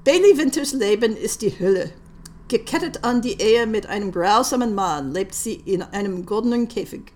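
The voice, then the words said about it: English speaker's poor German accent. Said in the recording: “Forgive my dreadful accent in German.”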